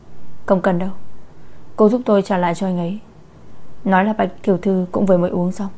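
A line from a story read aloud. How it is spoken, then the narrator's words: Coldly, displeased. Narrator (Vietnamese): mặt Lâm An Nam lập tức sầm lại, lạnh lùng nói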